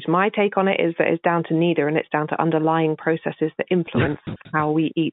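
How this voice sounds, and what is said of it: English accent. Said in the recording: “My English accent giving me away.”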